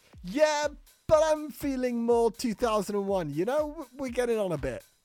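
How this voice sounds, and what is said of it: Put-on accent. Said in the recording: “it's difficult in the accent. It's difficult in the accent.”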